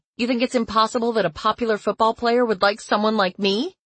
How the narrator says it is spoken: I snapped

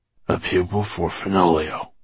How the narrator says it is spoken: he murmured

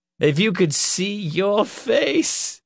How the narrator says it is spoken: she laughed again

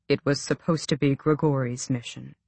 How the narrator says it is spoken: Aerobin said quietly

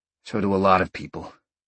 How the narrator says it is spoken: Sean sighed again

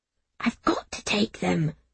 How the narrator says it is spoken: I whispered

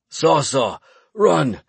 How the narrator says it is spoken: croaked

